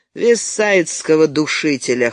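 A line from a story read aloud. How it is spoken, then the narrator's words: Short laugh. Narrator (Russian): хохотнул Мейер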